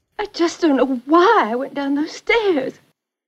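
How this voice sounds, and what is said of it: Texan Southern accent while crying. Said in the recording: “the wife was from Texas. Her accent comes out a bit, and when she's crying ... she's totally like Rhett Butler style Southern lady in that part”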